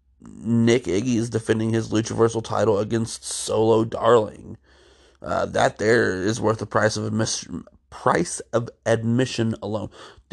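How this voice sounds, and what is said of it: Tired, congested, sniffly voice. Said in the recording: “Tired as all get out... my voice is sounding a little bit weirder than usual. And if you hear a little bit of sniffles, I'm just getting over a cold.”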